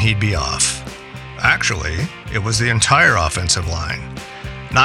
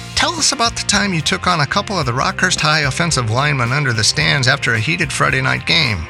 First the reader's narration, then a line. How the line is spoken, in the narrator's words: Trying to stifle laughter, we'd egg him on